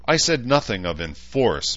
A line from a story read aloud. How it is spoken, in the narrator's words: Bauman snapped